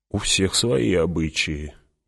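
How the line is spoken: Mumbling. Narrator (Russian): пробормотал кто-то

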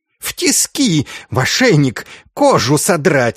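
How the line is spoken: Shrieking. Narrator (Russian): визжал Инститорис

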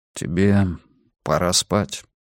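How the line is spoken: Low voice. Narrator (Russian): вполголоса сказал Йона

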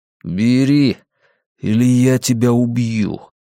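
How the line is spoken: Through gritted teeth. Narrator (Russian): процедил Флетчер

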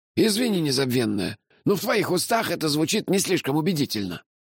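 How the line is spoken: Snapped. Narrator (Russian): огрызнулся Мелифара

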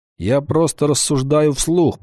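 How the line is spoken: Grumbling. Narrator (Russian): проворчал Вольф

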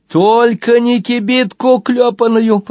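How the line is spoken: Groaning. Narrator (Russian): простонала Нина

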